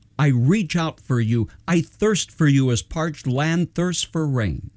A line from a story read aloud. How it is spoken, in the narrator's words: David cried out